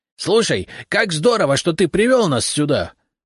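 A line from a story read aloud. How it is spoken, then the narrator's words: Ecstatic yell. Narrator (Russian): восторженно завопил репей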